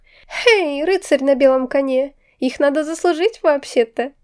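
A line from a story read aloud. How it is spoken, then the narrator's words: Laughing. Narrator (Russian): рассмеялась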